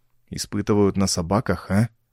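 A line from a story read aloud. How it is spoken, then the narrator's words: Whispered. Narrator (Russian): прошептал, наконец, Ровертон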